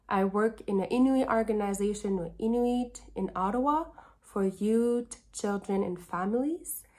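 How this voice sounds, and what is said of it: Slight accent. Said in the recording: “you're gonna hear a little bit of an accent.”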